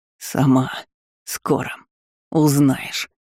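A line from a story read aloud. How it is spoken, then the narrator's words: Hoarse rasp. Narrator (Russian): прохрипел Сойер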